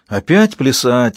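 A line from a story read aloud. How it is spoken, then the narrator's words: Sighing. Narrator (Russian): вздохнул Ангел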